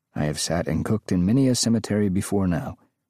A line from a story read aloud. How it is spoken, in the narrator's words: Graber said calmly